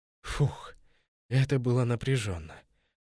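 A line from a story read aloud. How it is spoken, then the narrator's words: Relieved exhale. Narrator (Russian): выдохнул Кассиус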